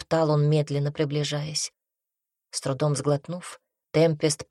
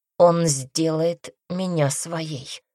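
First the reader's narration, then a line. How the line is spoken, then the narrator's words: Through gritted teeth. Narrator (Russian): процедила она сквозь зубы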